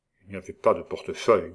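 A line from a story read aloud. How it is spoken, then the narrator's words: Growled. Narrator (French): gronda Joulou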